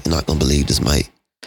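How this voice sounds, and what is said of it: Light English accent. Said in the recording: “he's from England. So he has a little accent.”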